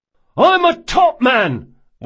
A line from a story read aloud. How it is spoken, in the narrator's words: one of the prisoners yelled